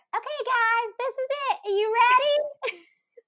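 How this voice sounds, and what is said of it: Imitates another person's annoying voice. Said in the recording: “Betty with her annoying ass voice ... doing an impression of Betty Monroe”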